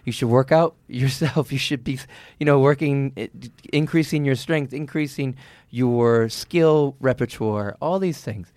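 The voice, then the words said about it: Frustrated, exasperated tone. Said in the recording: “you're hearing my voice is frustration”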